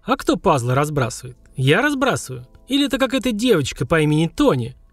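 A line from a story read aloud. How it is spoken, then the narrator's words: Snide question. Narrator (Russian): Ехидно поинтересовался папа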